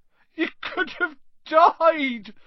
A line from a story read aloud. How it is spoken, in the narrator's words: sobbed Hagrid